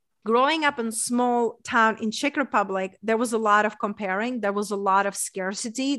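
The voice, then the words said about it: Czech accent. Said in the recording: “coming from a small town in Czech Republic, hence that's my accent from”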